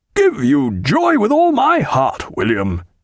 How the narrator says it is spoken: cried

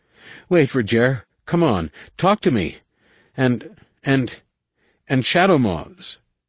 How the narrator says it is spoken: he stammered

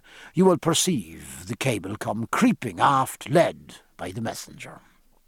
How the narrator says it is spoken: said Stephen in a comforting tone

